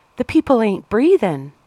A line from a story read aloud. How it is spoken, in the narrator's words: she cried